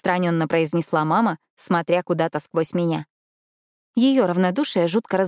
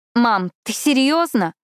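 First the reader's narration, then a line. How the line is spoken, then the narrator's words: Restrained indignant voice. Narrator (Russian): Стараясь не переходить на крик, возмущенно уточнила я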